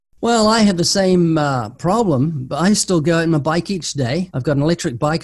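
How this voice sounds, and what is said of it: Speaks with a distinctive accent. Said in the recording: “I love your accent. You are just like a normal Christian with a way cooler accent than mine.”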